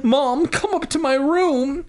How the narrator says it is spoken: she sobbed

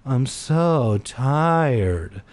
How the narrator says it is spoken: I moaned

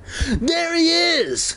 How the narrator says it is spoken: Conan cried

